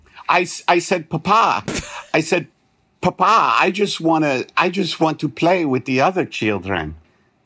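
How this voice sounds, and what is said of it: Put-on Transylvanian accent. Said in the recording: “It's getting more Transylvanian. ... My accent work is not the best.”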